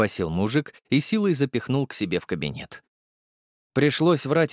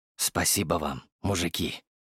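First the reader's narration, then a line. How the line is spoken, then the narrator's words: Whisper. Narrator (Russian): произнес я шепотом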